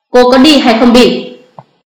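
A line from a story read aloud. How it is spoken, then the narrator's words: Stern command. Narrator (Vietnamese): Phong Khải Trạch nghiêm nghị hạ lệnh lần nữa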